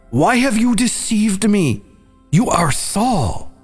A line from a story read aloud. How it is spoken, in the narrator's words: the woman screamed and said to Saul